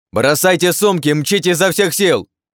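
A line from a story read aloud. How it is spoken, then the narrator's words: Shouted. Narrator (Russian): крикнул Артём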